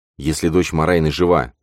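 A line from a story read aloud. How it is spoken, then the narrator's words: Firm voice. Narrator (Russian): твердым голосом произнес он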